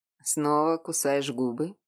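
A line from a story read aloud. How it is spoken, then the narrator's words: Unexpectedly tender, man. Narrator (Russian): Неожиданно ласково подметил мужчина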